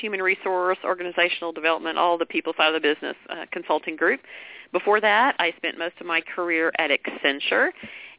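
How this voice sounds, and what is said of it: Texas accent. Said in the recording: “You can probably tell I'm from Texas based on my accent. I can't hide it.”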